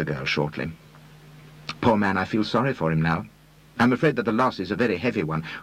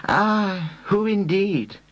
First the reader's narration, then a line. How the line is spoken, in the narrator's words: sighed the lugubrious Reader